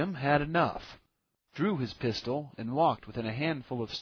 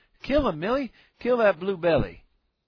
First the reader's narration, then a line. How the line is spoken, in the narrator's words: The boy cried